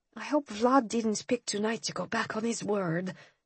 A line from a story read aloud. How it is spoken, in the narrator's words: I murmured, more to myself than to Ian